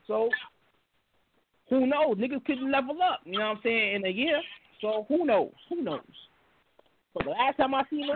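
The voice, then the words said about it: Southern American accent. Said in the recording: “You don't sound like a New York nigga no more... You got like this Southern dialect or something”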